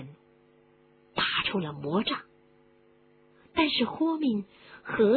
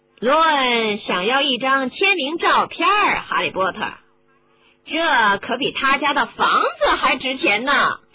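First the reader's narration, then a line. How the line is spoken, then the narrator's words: Smug laugh. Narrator (Chinese): 马尔福得意的笑着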